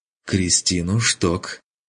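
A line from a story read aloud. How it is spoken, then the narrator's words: Irritated explanation. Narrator (Russian): раздраженно пояснил тот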